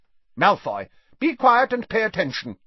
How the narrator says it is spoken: barked Professor McGonagall

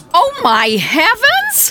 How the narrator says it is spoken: exclaimed a two-legger in a green hat

